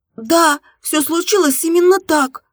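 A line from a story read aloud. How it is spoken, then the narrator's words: Exclaimed. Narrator (Russian): воскликнула Марина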